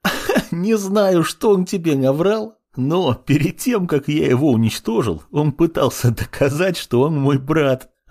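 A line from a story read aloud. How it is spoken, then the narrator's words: Laughing loudly. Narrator (Russian): расхохотался Синзи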